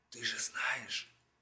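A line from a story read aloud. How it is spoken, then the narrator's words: Very quiet. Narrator (Russian): Она сказала тихо-тихо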